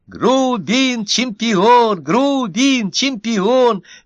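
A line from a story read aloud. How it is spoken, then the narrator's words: Cheering shout. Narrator (Russian): закричал другой зефир из группы поддержки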